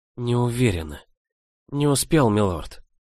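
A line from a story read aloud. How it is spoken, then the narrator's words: Whispered. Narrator (Russian): прошептала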